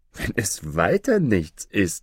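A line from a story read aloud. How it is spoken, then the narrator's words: Laughing. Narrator (German): lachte Aladdin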